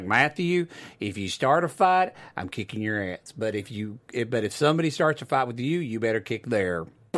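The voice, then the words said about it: Southern Oklahoma accent. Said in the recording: “Little southern accent ... my dad's Oklahoma”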